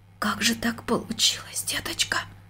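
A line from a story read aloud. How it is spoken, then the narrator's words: Near-whisper. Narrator (Russian): почти шепотом спросила она дочку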